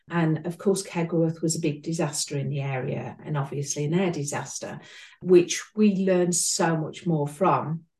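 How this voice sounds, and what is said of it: English Midlands accent. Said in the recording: “as you can tell by my accent, I'm between Birmingham and East Midlands”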